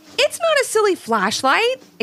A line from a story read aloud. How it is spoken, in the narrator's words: exclaimed Levi